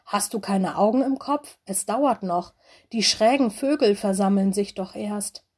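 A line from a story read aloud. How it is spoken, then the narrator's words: Hissing. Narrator (German): Loris fauchte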